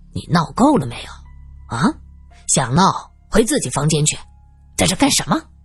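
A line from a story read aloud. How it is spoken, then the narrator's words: Plain. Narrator (Chinese): 说着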